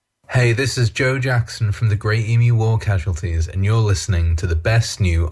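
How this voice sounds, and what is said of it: Australian accent. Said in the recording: “Australian music ... Don't mind the accent.”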